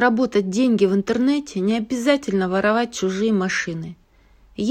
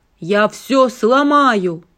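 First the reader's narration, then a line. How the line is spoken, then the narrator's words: Growling. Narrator (Russian): прорычал Ральф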